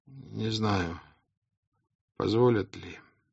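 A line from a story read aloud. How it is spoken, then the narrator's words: Weak voice. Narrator (Russian): слабым голосом сказал офицер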